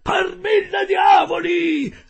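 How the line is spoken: Yelled. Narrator (Italian): urlò

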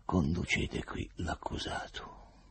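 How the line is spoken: Quiet. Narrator (Italian): Il procuratore disse piano

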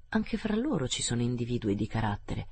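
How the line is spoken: Sinister murmur. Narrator (Italian): mormorò Ossipon in modo sinistro

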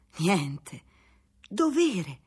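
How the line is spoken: Stammering. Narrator (Italian): balbettò Baldassarre

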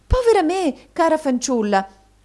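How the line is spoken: Surprised exclamation. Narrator (Italian): esclamò madama Mantalini, arretrando sorpresa

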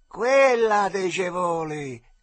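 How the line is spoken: Shouted. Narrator (Italian): gridò il caciotta

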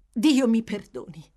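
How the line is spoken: Exclaimed. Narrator (Italian): esclamò

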